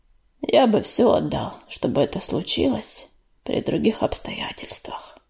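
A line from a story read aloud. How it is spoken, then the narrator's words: Sigh. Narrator (Russian): вздохнул Огнезвезд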